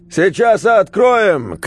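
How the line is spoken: Shouting into a phone. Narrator (Russian): крикнул в трубу Петруня

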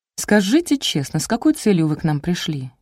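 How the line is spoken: Quiet inquiry. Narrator (Russian): тихо осведомилась

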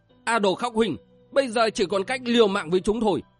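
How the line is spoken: Yelling. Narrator (Vietnamese): Viên Hằng gào lên

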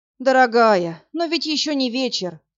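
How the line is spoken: Theatrical sigh. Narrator (Russian): Картинно вздохнул Власик

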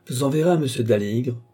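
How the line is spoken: Gruff tone. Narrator (French): dit Rafté d'un ton bourru

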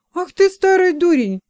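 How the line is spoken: Indignant exclamation. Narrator (Russian): воскликнул возмущенный Робинтон

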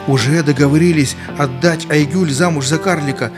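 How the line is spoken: Inner exclamation. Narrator (Russian): мысленно воскликнул Хабиб

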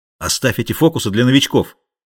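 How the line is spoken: Angry shout. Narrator (Russian): сердито прикрикнул Бальтазар

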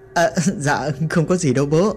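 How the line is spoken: Laughing loudly. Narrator (Vietnamese): Lâm cười lớn

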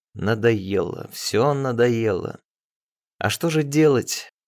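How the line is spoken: Through gritted teeth. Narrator (Russian): сказала сквозь зубы

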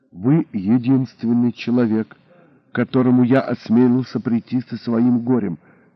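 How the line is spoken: Quiet. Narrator (Russian): тихо начал

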